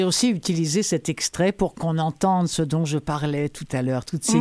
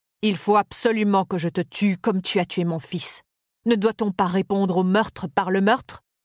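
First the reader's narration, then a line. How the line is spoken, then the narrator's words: Merchant exclaimed. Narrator (French): Le marchand s'écria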